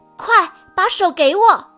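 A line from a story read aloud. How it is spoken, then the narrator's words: Loud shout. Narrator (Chinese): 小刺猬大声喊道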